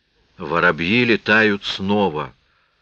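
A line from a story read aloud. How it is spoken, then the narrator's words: Trembling horrified mutter. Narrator (Russian): пробормотал Аллан дрожащим и ужаснувшимся голосом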